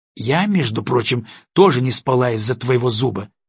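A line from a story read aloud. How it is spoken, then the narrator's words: Snapping. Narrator (Russian): огрызнулась Настя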